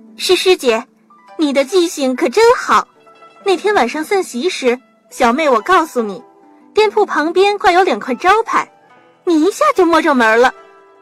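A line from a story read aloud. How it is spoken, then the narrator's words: Cheerful, smiling. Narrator (Chinese): 潘玉莹笑吟吟地说道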